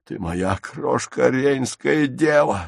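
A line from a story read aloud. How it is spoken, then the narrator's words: Hoarse wheezing. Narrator (Russian): сипел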